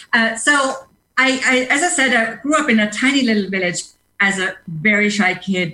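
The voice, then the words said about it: German-accented English. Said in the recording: “I grew up as a very shy kid in a small village in Germany, as you can hear from my accents. ... English still with an accent”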